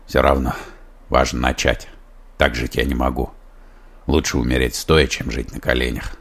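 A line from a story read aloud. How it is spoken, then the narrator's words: Solemn. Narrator (Russian): торжественно произнес Шестаков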